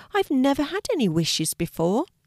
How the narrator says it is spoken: exclaimed Kelti excitedly

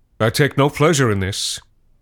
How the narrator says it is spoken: said Cole

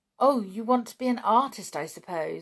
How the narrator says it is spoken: said Anne

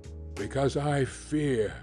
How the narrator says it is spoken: replied the lawyer solemnly

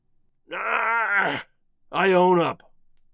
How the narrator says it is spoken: The king began to gurgle, and then he gasps out

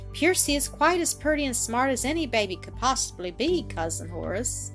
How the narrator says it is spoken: Annis quietly remarked

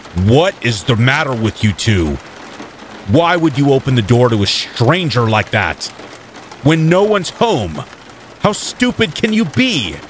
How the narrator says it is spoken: yelled angrily

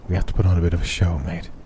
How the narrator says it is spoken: he whispered into my ear

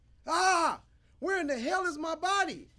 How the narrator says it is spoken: He shouted

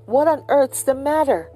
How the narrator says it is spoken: he exclaimed

